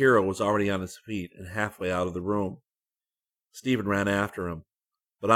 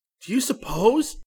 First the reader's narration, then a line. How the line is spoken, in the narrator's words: Stephen cried